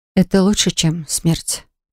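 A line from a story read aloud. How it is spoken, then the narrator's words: Quiet. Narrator (Russian): тихо добавила я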